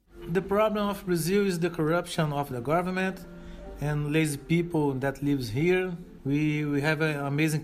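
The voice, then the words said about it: Brazilian accent. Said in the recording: “this Brazilian man speaking with a Brazilian accent”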